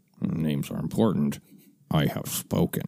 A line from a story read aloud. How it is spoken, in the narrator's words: Queel mumbles to himself under his breath